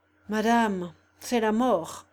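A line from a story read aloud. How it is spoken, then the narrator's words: Deep grave voice. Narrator (French): répondit le chapelain d'une voix profonde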